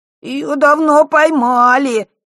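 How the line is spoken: Whiny tearful voice. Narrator (Russian): плаксивым голосом отозвался Мишка

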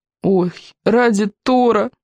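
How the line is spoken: Groaning. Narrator (Russian): простонал Рыбьенок

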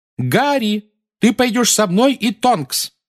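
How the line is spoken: Shout over shrieking. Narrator (Russian): крикнула миссис Уизли поверх нескончаемого визга

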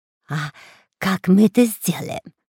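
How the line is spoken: Whispered question. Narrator (Russian): спросил шепотом Дырка

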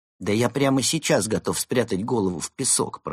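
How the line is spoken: Grumbling. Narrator (Russian): проворчал Евгений

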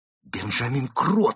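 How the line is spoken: Exclaimed. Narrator (Russian): воскликнул Константин

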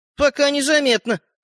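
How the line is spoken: Amused snort. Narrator (Russian): хмыкнул мальчик с пальчик

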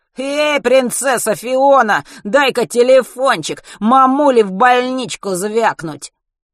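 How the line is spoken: Flattered nasal shout. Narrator (Russian): Вертлявый, польщенный одобрением товарищей, гнусаво прокричал

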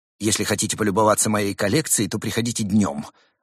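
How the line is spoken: Irritated, raised voice. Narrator (Russian): раздраженно повысил голос Муравейчик

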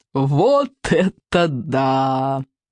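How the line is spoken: Laughing loudly. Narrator (Russian): захохотал Сморкала

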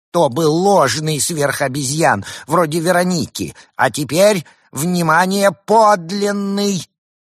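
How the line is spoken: Shouted. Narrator (Russian): крикнул кому-то за пределами кадра

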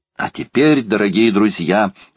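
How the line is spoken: Exclamation. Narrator (Russian): воскликнул Паганель

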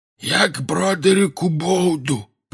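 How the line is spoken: Hoarse wheeze. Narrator (Russian): просипел он

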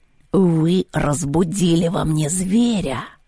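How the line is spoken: Through gritted teeth. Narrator (Russian): сообщил кот сквозь зубы

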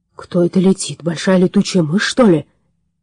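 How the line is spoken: Puzzled question. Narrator (Russian): с недоумением спросил Ютан

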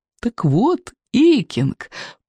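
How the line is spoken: Purring. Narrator (Russian): промурлыкал

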